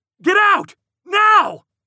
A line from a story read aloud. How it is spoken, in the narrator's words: muffled shout came from inside the tangle of bodies on the floor